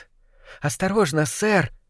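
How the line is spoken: Squeak, young rat. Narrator (Russian): пискнул один из крысят помоложе из толпы

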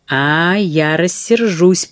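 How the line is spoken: Thunderous voice. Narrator (Russian): прогремела Эрмингарда

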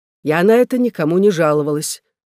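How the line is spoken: Stern, dry, unflappable. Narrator (Russian): отвечала Магдалена Грэм тем же суровым, сухим и невозмутимым тоном, каким отвечала на все предыдущие вопросы

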